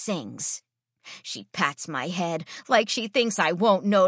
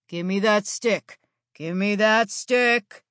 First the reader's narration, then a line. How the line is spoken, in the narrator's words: Fetch Man growls, wearing a wide smile